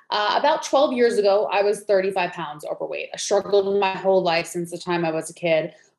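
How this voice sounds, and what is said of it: Slight New York accent. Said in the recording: “I'm originally from New York, so you might hear the accent come out a little bit”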